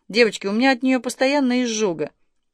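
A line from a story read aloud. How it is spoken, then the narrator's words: Pained grimace. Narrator (Russian): поморщилась Надежда Антоновна и жалобно добавила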